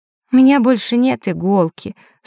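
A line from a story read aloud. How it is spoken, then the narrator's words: Sleepy. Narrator (Russian): сонно произнесла Василиса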